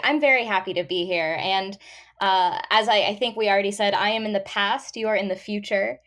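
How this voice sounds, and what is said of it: American English accent. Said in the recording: “you haven't been able to tell yet by the accent, is not from Australia. She is from America.”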